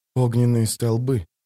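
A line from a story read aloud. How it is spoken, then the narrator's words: Whisper. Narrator (Russian): прошептал Пауль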